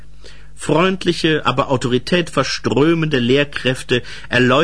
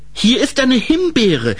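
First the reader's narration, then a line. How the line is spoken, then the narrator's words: Calling out. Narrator (German): rief Grete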